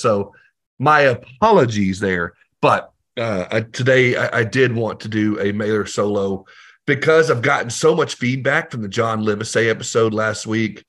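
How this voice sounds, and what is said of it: Hoarse, partly lost voice. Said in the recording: “forgive my voice... I've been recording a lot lately and talking a lot lately... I just lost my voice a little bit”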